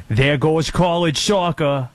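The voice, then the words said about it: Put-on Boston accent. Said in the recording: “A good Boston, pal. ... That's a good Boston.”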